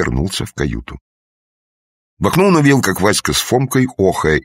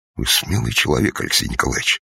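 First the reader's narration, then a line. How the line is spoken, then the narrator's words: Respectful mutter. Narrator (Russian): уважительно пробормотал Панибратов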